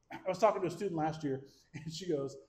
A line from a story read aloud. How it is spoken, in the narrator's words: I laughed